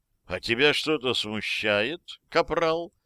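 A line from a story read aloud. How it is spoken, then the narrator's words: Insinuating question. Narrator (Russian): вкрадчиво спросил Лири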